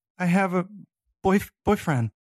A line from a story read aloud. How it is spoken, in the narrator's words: she stammered